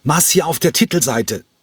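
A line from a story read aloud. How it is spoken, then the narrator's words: Shouted. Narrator (German): schrie er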